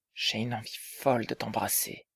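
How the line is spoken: Murmured. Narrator (French): murmura-t-il

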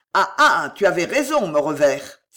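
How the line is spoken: Exclaimed. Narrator (French): s'écria Guise

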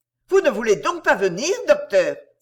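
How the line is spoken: Furious cry. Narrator (French): s'écria avec rage

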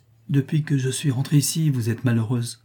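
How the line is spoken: Gentle. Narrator (French): dit doucement Rodet

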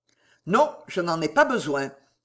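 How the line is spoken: Quick interruption, little man. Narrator (French): interrompit vivement le petit homme

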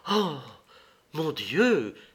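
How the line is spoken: Exclaimed. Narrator (French): s'écria-t-elle

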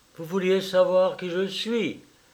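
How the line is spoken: Low muffled voice. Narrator (French): dit-elle d'une voix sourde

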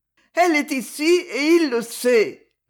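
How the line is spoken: Moaning. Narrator (French): gémit-elle

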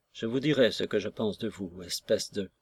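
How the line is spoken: Very soft. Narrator (French): fit-il très doucement

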